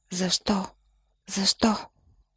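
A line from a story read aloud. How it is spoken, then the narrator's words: Whisper. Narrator (Bulgarian): Той шепне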